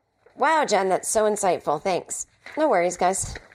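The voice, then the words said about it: Speaking too loudly, almost shouting. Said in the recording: “I feel like my headphones are too loud and I'm screaming. I'm screaming. Screaming to be heard.”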